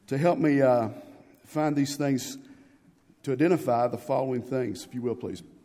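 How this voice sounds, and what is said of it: Slightly hoarse, fading voice. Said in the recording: “I'm losing my voice a little bit”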